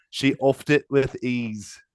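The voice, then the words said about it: Poor put-on British commentator accent. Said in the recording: “What is that accent? ... That's a Wimbledon commentator. ... Oh my God, it's horrendous. ... It's not good. I've done much better British accents before.”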